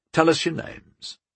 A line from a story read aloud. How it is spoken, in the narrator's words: he said calmly, without threat